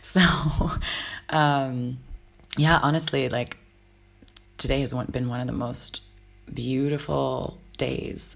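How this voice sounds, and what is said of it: Hoarse, partly lost voice. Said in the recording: “as you may be able to hear, my voice is a little bit gone”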